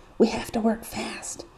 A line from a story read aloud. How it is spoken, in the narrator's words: Sam says quietly